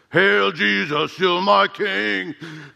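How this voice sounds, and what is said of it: Imitates another person's voice. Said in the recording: “my best Ken Graves imitation ... He's this big lumberjack guy”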